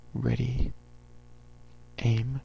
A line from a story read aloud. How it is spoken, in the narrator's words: breathed Jack